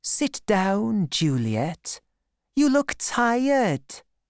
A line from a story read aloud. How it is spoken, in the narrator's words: Holly said in a sweet voice